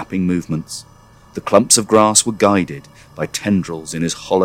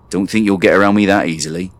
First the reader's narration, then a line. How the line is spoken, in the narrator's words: he growled